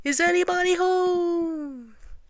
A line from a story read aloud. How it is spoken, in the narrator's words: put his head into the hole, and called out